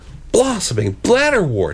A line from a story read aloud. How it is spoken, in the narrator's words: exclaimed Grell